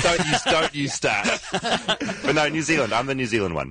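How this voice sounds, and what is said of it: New Zealand accent. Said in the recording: “Clearly I'm from New Zealand. Can't you tell from my accent?”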